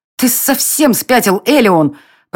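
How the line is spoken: Hissed. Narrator (Russian): прошипела Дайра

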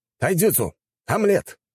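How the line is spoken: Shout. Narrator (Russian): выкрикнул

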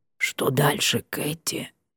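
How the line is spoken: Strained whisper. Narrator (Russian): сдавленно шепнула Карифа

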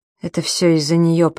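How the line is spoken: Muttered. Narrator (Russian): пробормотал Юдин

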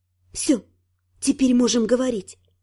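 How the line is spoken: Whisper. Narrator (Russian): прошептала

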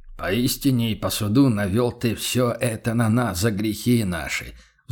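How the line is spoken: Contrite sigh, merchant. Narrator (Russian): вздохнул торговец сокрушенно

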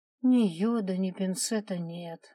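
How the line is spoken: Sigh. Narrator (Russian): вздохнула Наталья

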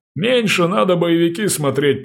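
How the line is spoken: Wheezy, hoarse. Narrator (Russian): просипел врач

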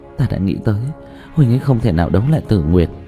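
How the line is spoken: Choked, tearful voice. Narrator (Vietnamese): Dương Tư Linh hít sâu một hơi, nghẹn ngào nói

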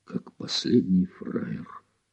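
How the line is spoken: Whisper. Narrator (Russian): шептал Гуров

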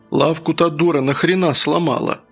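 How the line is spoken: Calm question. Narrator (Russian): спокойно поинтересовался

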